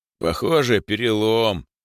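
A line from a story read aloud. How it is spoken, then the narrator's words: Deep young male voice. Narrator (Russian): пробасил почти взрослый парень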